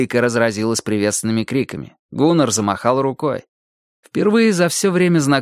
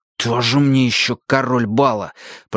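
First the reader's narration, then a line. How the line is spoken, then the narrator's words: Hiss. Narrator (Russian): прошипел я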